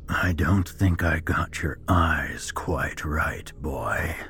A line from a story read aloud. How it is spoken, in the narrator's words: mocked in a raspy voice